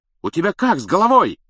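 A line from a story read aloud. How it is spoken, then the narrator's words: Alarmed yelling. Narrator (Russian): завопил Стэн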